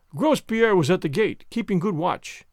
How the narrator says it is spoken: began Bibot, pompously

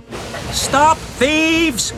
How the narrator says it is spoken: shouted Toby

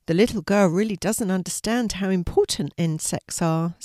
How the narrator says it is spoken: said Molly

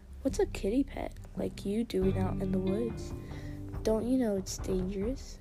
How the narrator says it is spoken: asked Graypaw

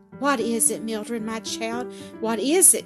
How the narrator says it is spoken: gasped the poor invalid, turning deathly pale

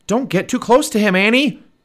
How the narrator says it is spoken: Jack shouted

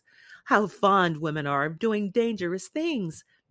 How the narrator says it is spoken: laughed Lord Henry

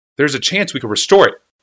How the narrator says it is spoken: said Urza crossly

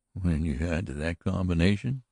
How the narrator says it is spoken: he muttered

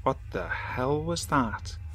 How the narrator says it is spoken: James just muttered

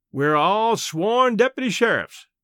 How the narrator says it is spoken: called the caretaker smoothly

